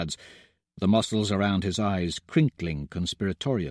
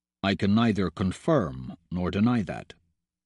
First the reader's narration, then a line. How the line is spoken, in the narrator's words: he says evenly